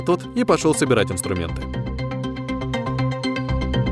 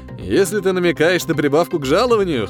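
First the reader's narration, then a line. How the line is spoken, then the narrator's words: Snorting hum. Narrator (Russian): хмыкнул Крейден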